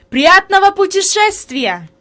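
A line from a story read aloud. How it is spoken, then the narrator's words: Shouted. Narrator (Russian): господин Сесман крикнул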